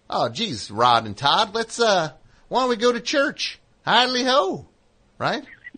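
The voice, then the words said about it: Imitates a cartoon neighbor's voice. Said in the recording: “do that dumb voice,... I'm 90% of the way there”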